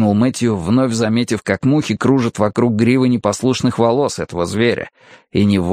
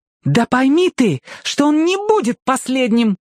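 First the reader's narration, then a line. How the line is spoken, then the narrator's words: Ardent exclamation. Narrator (Russian): с жаром воскликнула Пандора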